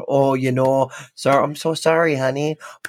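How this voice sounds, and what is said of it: Put-on North Dakota accent. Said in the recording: “pulling my North Dakota accent out”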